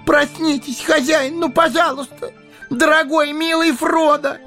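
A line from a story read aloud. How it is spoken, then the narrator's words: Inconsolable sobbing. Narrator (Russian): Безутешно рыдал он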